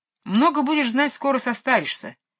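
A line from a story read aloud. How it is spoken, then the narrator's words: Snapping retort. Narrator (Russian): огрызнулась Мэри Поппинс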